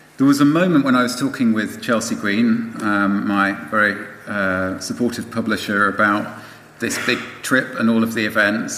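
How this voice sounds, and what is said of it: British accent. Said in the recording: “coming back to the UK, I mean, you can probably tell by my voice that this is kind of where I come from originally”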